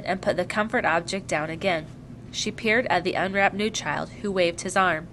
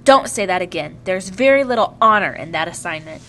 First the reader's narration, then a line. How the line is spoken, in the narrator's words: Mother spoke very sharply